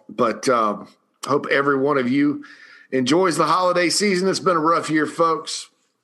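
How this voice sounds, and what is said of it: Strained, worn-out voice. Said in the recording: “My voice is a little shot today”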